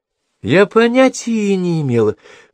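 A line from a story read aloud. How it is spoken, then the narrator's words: Exclamation. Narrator (Russian): воскликнула Брук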